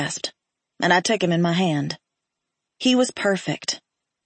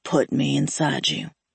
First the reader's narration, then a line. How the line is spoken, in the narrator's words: he muttered hoarsely